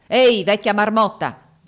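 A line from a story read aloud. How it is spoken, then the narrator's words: Shouted at innkeeper. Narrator (Italian): gridò all'oste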